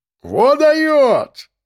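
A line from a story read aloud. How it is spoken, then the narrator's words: Loud tipsy man shouting. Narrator (Russian): громче всех кричал подвыпивший бородач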